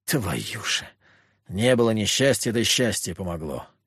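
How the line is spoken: Sighing. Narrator (Russian): Вздохнул я

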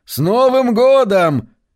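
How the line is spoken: Shouting over loud radio. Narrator (Russian): она ответила тем же, стараясь перекричать радио, которое орало во всю мощь

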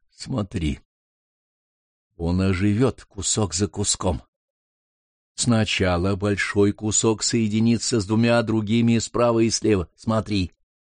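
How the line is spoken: Whisper. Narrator (Russian): Лурган Саиб шепнул

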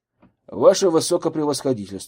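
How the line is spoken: Loud. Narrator (Russian): сказал громко

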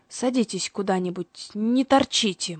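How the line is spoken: Gruff old man mutter. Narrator (Russian): буркнул старикашка

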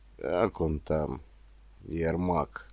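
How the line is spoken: Gloomy. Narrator (Russian): мрачно спросил дядя Вася

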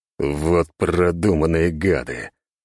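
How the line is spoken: Hiss. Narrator (Russian): прошипел я

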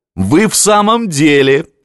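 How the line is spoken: Laughing. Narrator (Russian): засмеялся Гросс

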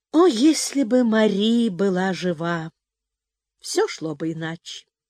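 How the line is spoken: Heavy sigh, spoken aloud. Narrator (Russian): он тяжело вздохнул, произнес вслух

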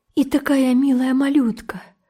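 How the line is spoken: Sobbing. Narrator (Russian): всхлипнула Сюзан

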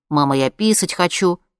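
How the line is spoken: Boy in deep bass. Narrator (Russian): Мальчик вдруг сказал басом

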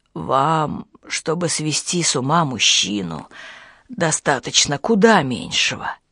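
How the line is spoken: Barely audible. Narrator (Russian): Еле слышно альпинист говорит

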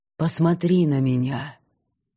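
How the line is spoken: Passionate breathy pleading command. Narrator (Russian): Пышущий страстью голос выдохнул полуприказ, полупросьбу

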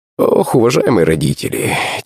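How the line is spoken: Heavy sigh. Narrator (Russian): тяжело вздохнул Иннокентий Палыч

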